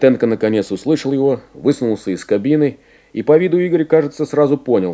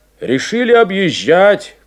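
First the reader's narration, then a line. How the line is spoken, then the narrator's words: Shouting. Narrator (Russian): крикнул он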